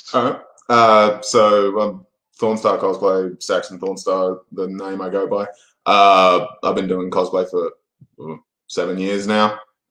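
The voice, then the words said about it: Australian accent. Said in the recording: “I'm an Australian, clearly by the accent.”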